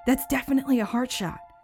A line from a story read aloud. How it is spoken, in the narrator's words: I whispered excitedly to myself